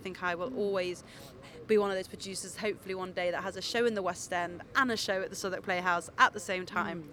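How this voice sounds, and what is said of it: Manchester accent with a twang. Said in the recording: “you've got that wonderful Manchester accent ... There's a lovely twang to it”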